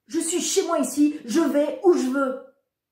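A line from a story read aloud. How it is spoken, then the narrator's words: Shouting. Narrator (French): dis-je en hurlant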